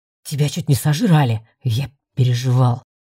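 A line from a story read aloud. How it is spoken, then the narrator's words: Mumbled. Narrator (Russian): пробурчал Рыжик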